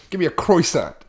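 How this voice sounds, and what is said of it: Brooklyn accent. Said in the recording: “I'm going to say it with a Brooklyn accent.”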